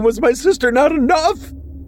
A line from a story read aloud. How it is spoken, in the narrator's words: She cried as she thrashed about